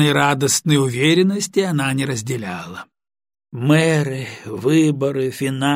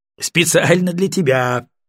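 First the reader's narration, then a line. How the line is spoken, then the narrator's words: Laughing. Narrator (Russian): рассмеялся Чистяков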